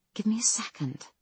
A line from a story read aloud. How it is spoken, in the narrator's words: Penny mutters